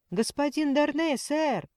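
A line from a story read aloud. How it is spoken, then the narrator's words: Shouted from a boat. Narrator (Russian): крикнул из шлюпки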